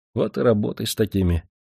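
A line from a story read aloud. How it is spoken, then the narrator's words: Sighing. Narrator (Russian): вздохнул Букашов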